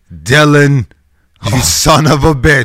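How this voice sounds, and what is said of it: Arnold Schwarzenegger impression. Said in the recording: “your best Arnold impersonation... That's like the American Arnold”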